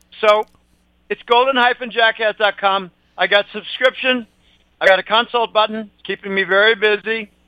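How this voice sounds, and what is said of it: Worn-down, strained loud voice. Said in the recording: “my voice is a little worn down. It may be chronically worn down for quite a while ... I need to lower my volume. I have a tendency to shout”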